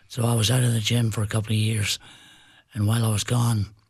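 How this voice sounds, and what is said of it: Altered, damaged speaking voice. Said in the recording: “as you can tell by my voice, I didn't always sound like this. I had some throat cancer issues.”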